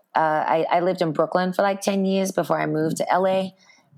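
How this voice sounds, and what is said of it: Raspy voice, mixed Australian accent. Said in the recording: “I definitely have a raspy voice right now ... I always typically lose my voice ... an Australian raspy accent ... my accent now is kind of from like the middle of the ocean”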